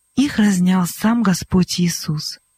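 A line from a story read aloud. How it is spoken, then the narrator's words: Calm reply. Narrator (Russian): Спокойно Монтуань ответил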